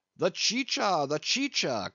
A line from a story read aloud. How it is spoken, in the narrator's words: cried Don Pedro